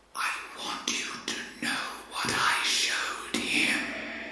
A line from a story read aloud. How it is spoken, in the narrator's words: a voice speaking from a darkened corner of the loft whispered